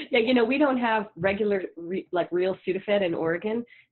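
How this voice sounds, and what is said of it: Congested, slightly odd-sounding voice. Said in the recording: “I've been having a head cold, so if I sound weird, that's why.”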